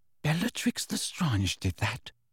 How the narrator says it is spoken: whispered Hermione, horrified

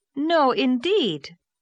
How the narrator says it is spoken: said Anne indignantly

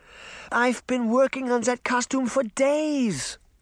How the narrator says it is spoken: Granny exclaimed

